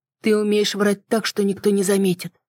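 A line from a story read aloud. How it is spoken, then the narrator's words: Slightly trembling voice. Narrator (Russian): ответил я чуть дрогнувшим голосом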